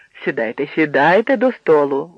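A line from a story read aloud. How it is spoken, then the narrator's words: Father exclaiming. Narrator (Ukrainian): вигукнув батько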